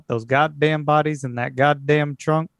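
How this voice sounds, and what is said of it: Texan accent. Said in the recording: “my own native Texan accent ... ease into this accent here”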